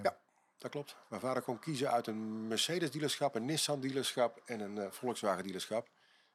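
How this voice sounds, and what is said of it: Brabant Dutch accent. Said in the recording (Dutch): “als ik zo je accent hoor, in Rosmalen of in het Brabants ... ik ben eigenlijk Brabants van oorsprong”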